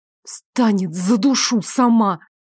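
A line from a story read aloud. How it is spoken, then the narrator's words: Angry, first flicker of emotion. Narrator (Russian): Зло проговорила впервые за эти минуты, ощутив хоть какие-то эмоции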